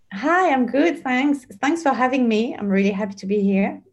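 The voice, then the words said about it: French accent. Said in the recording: “You needed the French accent. ... The French accent”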